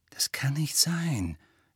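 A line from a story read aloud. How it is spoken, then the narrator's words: Quiet objection. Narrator (German): widersprach Hermine leise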